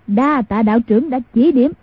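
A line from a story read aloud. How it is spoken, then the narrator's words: Loud guffawing. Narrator (Vietnamese): Mai Siêu Phong hô hố cười lớn nói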